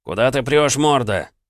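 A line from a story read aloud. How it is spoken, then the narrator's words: Furious yelling. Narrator (Russian): орал взбешенный Соколов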